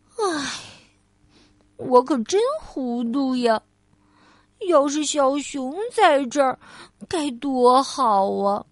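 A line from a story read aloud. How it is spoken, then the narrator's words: Sighing. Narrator (Chinese): 他叹了口气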